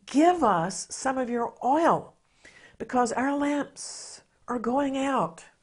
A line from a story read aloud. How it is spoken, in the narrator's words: the foolish ones desperately ask the wise virgins